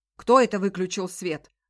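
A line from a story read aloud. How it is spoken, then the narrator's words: Shout. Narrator (Russian): закричал он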